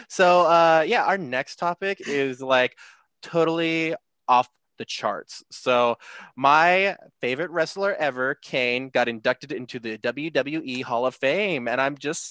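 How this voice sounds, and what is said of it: Exaggerated Valley Girl accent. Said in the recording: “I'm making this fucking ridiculous voice ... I have to do the rest of this podcast in a Valley Girl accent.”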